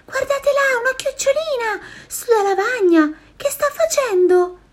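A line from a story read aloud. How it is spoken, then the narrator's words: Girl suddenly shouting. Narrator (Italian): Grida un tratto una bambina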